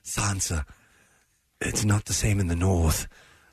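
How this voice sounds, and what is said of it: Low-voiced Littlefinger impression. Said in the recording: “You do a good Littlefinger impression ... He gets so low in his speech”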